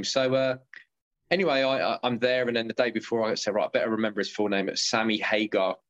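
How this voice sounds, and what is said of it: English accent. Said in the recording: “what sort of accent is that, man? And I said, England. I said, as in, you know, where the Queen lives.”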